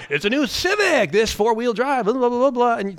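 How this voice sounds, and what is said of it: Cheesy announcer voice. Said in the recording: “my impression of cheesy announcer ... my impression of that guy”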